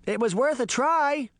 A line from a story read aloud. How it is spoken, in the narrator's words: Daphne shouted